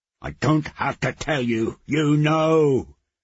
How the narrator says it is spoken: he roared

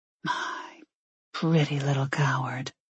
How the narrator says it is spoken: he whispered

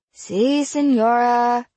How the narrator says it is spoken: the class moaned

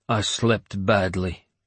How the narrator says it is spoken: he grunted

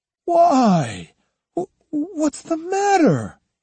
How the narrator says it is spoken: he stammered

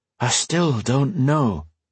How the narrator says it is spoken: Anise said, sighing

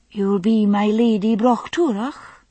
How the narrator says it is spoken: she said, though there was no more than a hint of question in her soft Highland voice

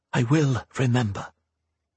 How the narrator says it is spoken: Rhea whispered to herself

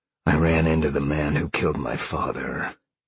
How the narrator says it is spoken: Sean growled

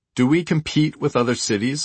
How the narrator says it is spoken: a flyer asked

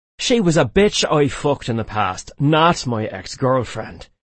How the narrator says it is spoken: he snapped

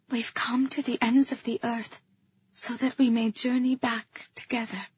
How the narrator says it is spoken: I said, so soft it was little more than a whisper

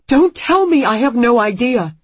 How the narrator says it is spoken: Anne screams at him

